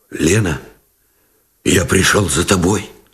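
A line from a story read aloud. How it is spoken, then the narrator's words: Muffled and hoarse. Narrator (Russian): глухо и хрипло выговорил Новиков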